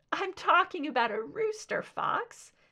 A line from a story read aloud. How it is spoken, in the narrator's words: exclaimed